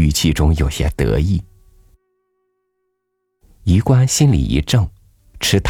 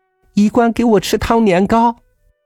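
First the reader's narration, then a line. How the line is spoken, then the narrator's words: Loud. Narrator (Chinese): 月云大声说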